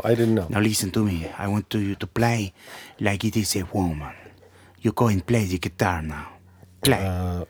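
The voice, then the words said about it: Speaks with a foreign accent. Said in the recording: “I'm sorry, ... About my accent.”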